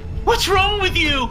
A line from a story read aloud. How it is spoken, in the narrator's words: he screamed